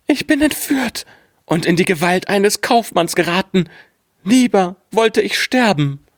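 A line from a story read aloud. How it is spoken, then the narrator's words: Frightened cry. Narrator (German): rief sie ganz erschrocken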